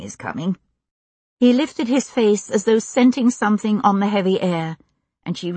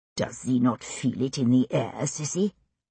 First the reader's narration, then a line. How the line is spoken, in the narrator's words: He said softly